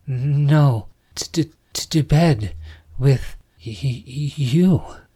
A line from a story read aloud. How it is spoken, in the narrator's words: Summer laughed and then stammered